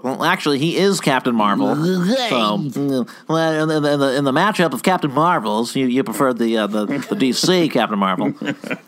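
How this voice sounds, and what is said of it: Professor Frink impression. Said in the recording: “that was a good Professor Frink you just did ... That's also my Keith Law impression”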